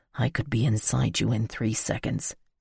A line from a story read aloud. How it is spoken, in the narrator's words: he whispered